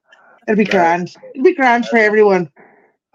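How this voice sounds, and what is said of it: Decent put-on Irish accent. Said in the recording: “That's your Ireland accent. ... it's not bad. ... I thought it was pretty good.”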